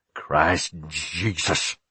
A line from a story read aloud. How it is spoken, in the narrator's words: he muttered